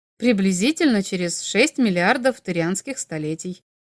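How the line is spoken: Calm, matter-of-fact. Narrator (Russian): спокойно ответил Тейлор, словно речь шла о четверге будущей недели

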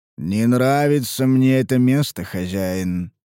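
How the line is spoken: Drawling. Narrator (Russian): протянул Гробак

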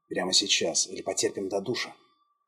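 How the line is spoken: Provocative whisper in ear. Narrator (Russian): Джон настойчиво провокационно зашептал в ухо

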